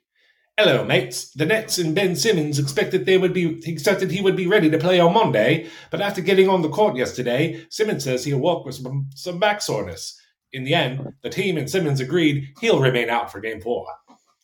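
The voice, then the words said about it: Put-on British accent, slipping. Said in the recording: “Read it in a British accent, please. ... You lost it towards the end”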